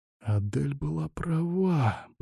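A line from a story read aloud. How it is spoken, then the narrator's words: Whisper. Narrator (Russian): прошептал он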